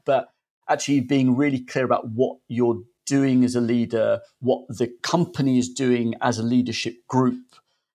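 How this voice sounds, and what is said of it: Fairly strong London accent. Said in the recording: “I've got a relatively strong London accent”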